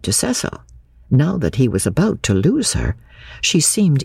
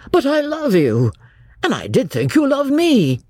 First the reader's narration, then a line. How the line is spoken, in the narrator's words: His brain recovered from the shock, and in a burst of genuine devotion he cried